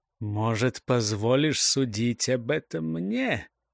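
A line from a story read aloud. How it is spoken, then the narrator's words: Threatening whisper. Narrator (Russian): заговорил он угрожающим шепотом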